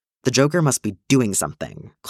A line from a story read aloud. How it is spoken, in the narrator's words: Clint snaps in frustration